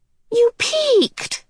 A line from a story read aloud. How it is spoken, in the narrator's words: Charles Wallace cried indignantly